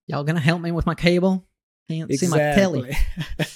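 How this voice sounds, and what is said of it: Put-on Southern US accent. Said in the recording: “were from the south of the US... Something like that... That's a difficult accent”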